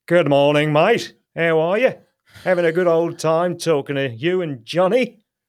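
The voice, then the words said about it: Put-on English Cockney accent. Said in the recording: “English Cockney.”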